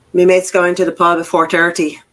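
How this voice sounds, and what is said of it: Put-on Irish accent. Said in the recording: “Irish. ... So it's an Irish accent.”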